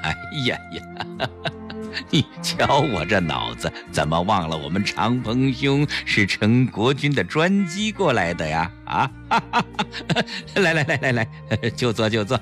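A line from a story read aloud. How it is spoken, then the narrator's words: Self-mocking laugh. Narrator (Chinese): 陈坤博自嘲地笑了笑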